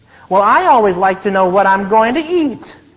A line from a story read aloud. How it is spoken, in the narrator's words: cried Aunt Rose and laughed